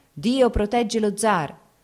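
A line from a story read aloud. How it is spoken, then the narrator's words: Crowd shouting. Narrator (Italian): si udirono grida di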